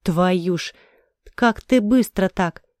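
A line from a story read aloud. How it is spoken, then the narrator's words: Stunned sigh. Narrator (Russian): потрясенно вздохнул Верзила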